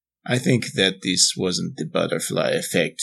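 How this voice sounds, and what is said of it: Speaks in a put-on accent. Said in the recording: “I don't know why I have an accent now.”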